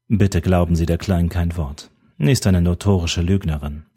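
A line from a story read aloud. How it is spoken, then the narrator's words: Calm. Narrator (German): erklärte er ruhig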